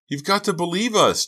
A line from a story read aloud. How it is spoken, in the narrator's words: Dina wailed, tears sliding down her cheeks